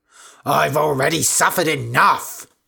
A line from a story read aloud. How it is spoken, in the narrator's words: shouted Candida